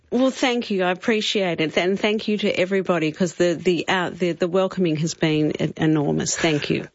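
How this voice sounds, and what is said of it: Australian accent, no American trace. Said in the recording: “not a trace of American in your accent”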